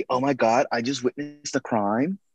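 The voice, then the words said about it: Stereotypical white girl voice. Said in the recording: “That's a white girl voice.”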